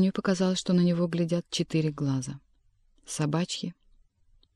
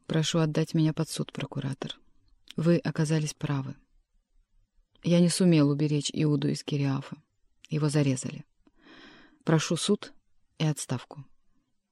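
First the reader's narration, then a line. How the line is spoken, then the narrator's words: Quiet. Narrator (Russian): тихо сказал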